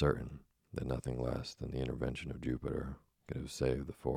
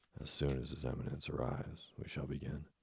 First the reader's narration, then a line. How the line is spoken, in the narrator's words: his voice was lost in a thunderous outburst of disapproval